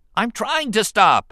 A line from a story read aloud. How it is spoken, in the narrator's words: Anakin shouted in reply